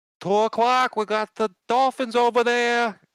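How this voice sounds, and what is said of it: Boston boat captain accent. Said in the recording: “a real like, you know, captain Boston, voice ... captain of a Boston Bostonian ship accent.”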